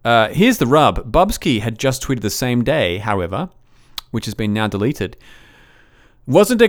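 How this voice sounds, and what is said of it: Usual voice. Nothing is said of it.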